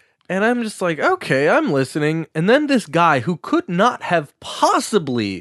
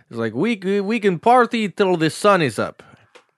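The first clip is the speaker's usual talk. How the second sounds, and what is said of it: Inconsistent put-on accent. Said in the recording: “My accent's going all over the place.”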